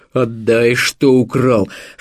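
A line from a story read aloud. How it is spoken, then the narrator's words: Booming deep bass. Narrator (Russian): проговорила раскатистым басом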